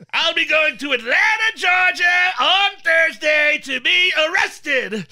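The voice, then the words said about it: Imitates another person's voice. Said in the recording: “in my Trump voice”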